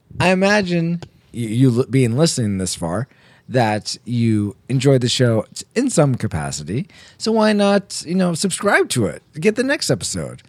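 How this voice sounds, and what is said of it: Slightly rough, hoarse voice. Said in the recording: “my voice is a little rough”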